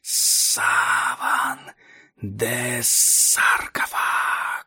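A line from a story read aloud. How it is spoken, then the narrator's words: Distant whisper from the depths. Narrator (Russian): Голос, затерянный в глубинах томимой жажды земли, прошептал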